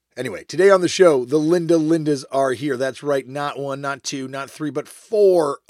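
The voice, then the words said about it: Tired, slightly worn-out voice. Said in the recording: “Sorry, I'm very tired. As you can tell from my voice being a little bit shot”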